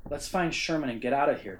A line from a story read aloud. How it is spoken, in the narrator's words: Charlie replied